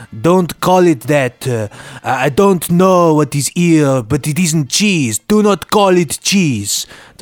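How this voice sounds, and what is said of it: Put-on accent for French speaker. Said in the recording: “Don't know what that accent was. ... is he going to go for the accents? Oh, dear, he's gone for them.”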